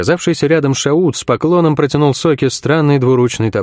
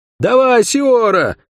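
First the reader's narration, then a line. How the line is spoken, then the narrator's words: Shout. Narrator (Russian): крикнул светловолосый парень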